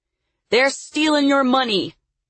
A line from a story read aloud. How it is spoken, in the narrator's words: yelled